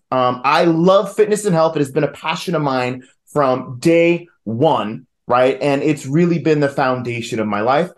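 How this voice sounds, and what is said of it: New York accent. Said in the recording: “I am originally from New York, if you couldn't tell by the accent.”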